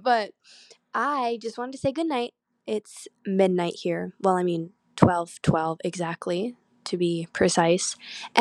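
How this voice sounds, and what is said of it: Voice sounds a little off. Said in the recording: “my voice sounds a little off right now. I'm having severe allergies and I'm coughing”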